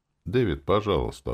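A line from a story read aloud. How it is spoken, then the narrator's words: Duke's completely calm request. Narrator (Russian): абсолютно спокойным голосом попросил герцог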